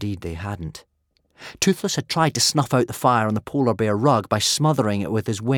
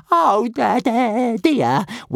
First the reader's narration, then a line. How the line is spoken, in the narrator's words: wailed Toothless